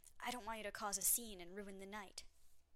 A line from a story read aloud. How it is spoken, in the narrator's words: he whispered scornfully into my ear